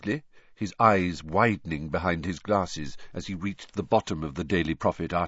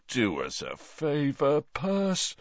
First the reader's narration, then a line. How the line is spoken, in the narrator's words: said Bill, yawning